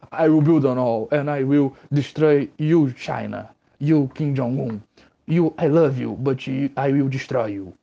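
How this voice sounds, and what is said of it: Imitates another person's voice, poorly. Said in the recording (Portuguese): “minha imitação do Trump ter sido bem vergonhosa ... Eu já sabia fazer isso um pouco melhor”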